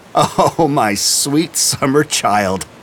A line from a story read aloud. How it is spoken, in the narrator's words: laughed McBride